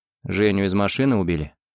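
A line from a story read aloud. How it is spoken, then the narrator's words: Dull-voiced question. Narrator (Russian): тусклым голосом спросил Макс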